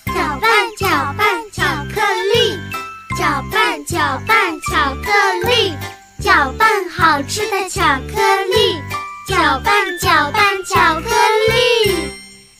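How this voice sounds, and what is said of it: Singing quietly, softly. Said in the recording (Chinese): “小声的再唱一遍”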